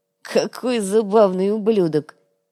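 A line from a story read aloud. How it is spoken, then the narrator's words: Giggling man. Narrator (Russian): хихикнул один из парижан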